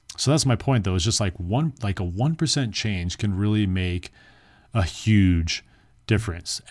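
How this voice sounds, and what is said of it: Hoarse, worn-out voice. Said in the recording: “my voice is becoming hoarse ... my voice is like, I really need some water”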